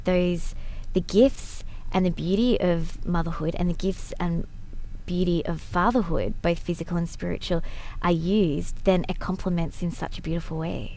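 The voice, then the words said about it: Australian accent. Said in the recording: “from Australia. In case you're trying to figure out what the accent is”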